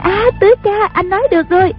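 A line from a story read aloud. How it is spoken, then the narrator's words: Cried out. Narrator (Vietnamese): A Bích la lên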